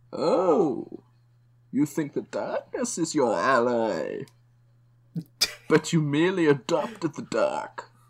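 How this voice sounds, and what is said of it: Bizarre movie-villain Bane voice impression. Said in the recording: “my Bane impression ... the Bane voice is very bizarre”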